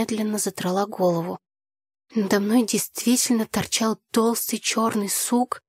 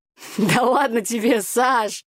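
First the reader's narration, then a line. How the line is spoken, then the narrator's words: Laughing. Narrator (Russian): Смеясь, Игорь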